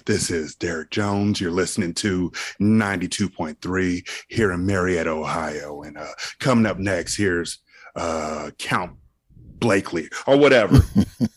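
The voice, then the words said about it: Deep radio DJ voice. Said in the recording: “the full breadth of my deep voice ... that's where the deep voice comes in great”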